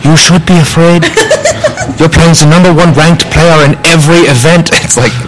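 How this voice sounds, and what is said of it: Put-on German accent. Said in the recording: “like a mix of all the accents ... That's a perfect German accent.”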